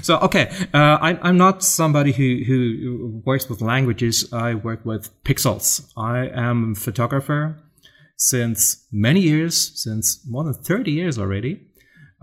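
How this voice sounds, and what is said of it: German accent with American influence. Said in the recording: “as you can probably hear, I'm from Germany. As you also can probably hear, I've been spending some time in the States ... I can only speak the American accent, sort of ... your accent actually sounds very posh ... I have a German accent as well”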